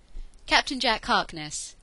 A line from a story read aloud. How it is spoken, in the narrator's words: Jack said, cheerfully with an especially expansive smile